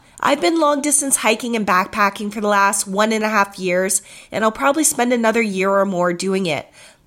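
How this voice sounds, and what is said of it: Husky, sick-sounding voice. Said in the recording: “Sorry, my voice is so husky sounding, but I think I picked up the bug or the flu”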